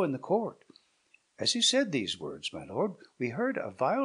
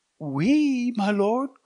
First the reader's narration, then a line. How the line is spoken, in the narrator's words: cried they with one voice